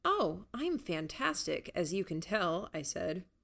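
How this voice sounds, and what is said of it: Sarcastic tone. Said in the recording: “You're being sarcastic”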